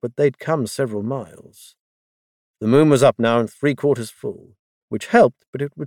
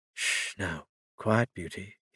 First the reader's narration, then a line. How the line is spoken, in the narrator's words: he murmured